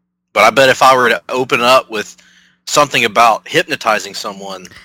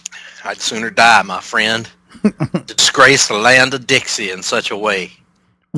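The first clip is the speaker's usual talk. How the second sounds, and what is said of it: Put-on Southern US accent. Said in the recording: “What a unique Southern accent that was”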